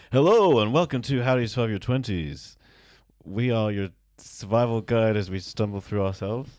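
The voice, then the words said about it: Imitates another person's voice. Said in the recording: “my best John impression ... You started strong. And then I feel like the tiredness crept in a bit there.”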